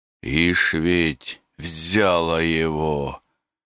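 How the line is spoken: Grumbling. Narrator (Russian): Ворчал Зотушка

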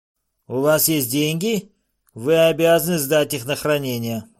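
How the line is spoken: Rude interruption, official. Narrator (Russian): грубо вмешался распорядитель Лейвис

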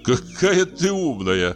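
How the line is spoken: Laughing. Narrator (Russian): засмеялся Ковалев

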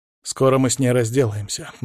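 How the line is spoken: Grim promise. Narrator (Russian): мрачно пообещал я

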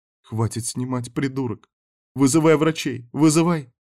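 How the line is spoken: Voice breaking into sobs. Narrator (Russian): Ее голос срывался в рыдание, потому что девочка была мертва

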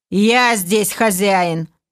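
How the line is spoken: Angry clipped words, elf. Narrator (Russian): зло отчеканил эльф

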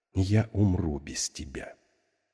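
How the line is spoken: Quiet. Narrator (Russian): она тихо сказала

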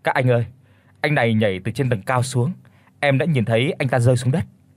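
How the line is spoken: Trembling shaken. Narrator (Vietnamese): tôi run run chỉ tay vào xác của người đang nằm trên vũng máu mà nói

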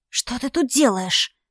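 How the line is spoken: Hissed. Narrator (Russian): прошипела я

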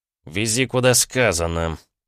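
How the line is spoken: Short growl. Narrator (Russian): коротко рыкнул Джованни

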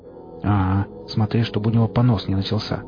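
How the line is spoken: Unamused grumbling. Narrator (Russian): пробурчал сталкер, не видевший в ситуации ничего смешного

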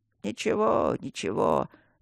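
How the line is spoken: Old man mumbling, sobbing. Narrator (Russian): бормотал дед, хромая, жалко всхлипывая

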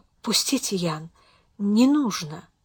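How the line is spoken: Flustered, barely audible plea. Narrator (Russian): Совершенно растерявшись, Беатрис попросила едва слышно

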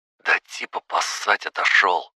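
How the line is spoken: Low voice. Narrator (Russian): сказал он вполголоса

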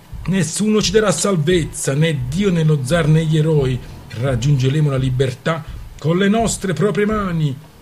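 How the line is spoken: Loud booming chant. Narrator (Italian): intonò a squarciagola con voce stentorea

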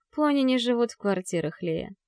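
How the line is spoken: Gentle. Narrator (Russian): говорю мягко

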